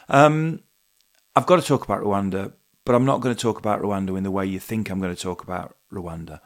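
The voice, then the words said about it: Croaky, hoarse voice. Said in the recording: “You probably hear in my voice that it's a bit croaky”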